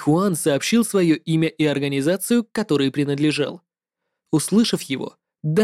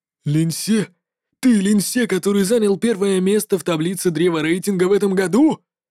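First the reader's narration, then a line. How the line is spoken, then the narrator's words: Unrestrained exclamation. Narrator (Russian): Не выдержал и воскликнул человек в черном балахоне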